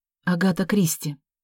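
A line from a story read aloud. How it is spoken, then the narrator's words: Muttered. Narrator (Russian): пробормотала Вера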